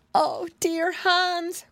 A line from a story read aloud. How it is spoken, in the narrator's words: cried Alice